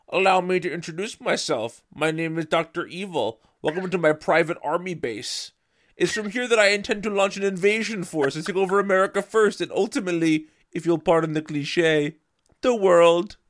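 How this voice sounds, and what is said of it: Imitates a movie villain's voice. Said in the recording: “This sounds like Dr. Evil... I'm just gonna read this in the Dr. Evil voice”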